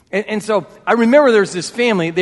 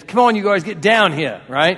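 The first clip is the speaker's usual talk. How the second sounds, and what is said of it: Put-on New York/New Jersey accent. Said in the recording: “They were obviously from New York or New Jersey. I don't know if the exact accent”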